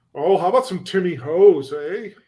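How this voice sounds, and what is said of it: Put-on Canadian accent. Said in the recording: “I end up going like Canadian for him”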